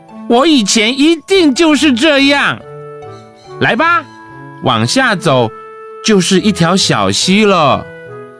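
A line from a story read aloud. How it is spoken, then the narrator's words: Hearty laughter. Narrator (Chinese): 艾玛哈哈大笑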